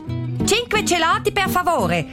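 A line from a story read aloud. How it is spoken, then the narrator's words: Loud voice. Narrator (German): sagt sie mit lauter Stimme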